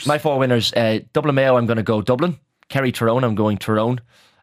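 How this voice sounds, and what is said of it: Irish Monaghan accent. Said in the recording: “Did you need a translator for my Monaghan accent?”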